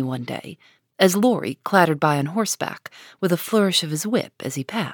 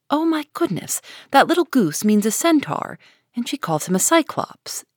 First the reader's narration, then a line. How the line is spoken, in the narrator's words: exclaimed Jo with a burst of laughter